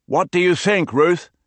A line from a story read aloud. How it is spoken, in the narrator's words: Gabri asked, raising his voice so she could hear over the rushing waters